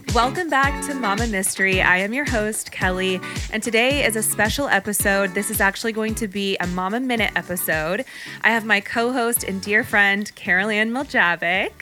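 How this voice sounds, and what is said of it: Polished radio host presenting voice. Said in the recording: “I love your podcast voice ... it's like so not typically my natural voice ... You sound like that radio host. What is it? Delilah. When they're like, good evening, listeners.”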